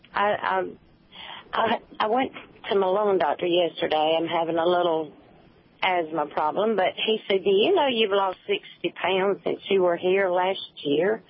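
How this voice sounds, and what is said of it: Southern US accent. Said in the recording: “I love your southern accents”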